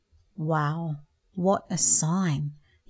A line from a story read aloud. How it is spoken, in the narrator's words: he whispered quietly